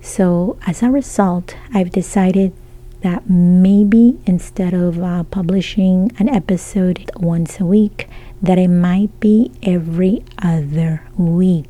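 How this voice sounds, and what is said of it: Strained, husky voice. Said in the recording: “it's affecting my voice. I haven't been able to speak the way that I want... it hurts to talk a little bit... my voice is it goes off a little bit throughout this episode”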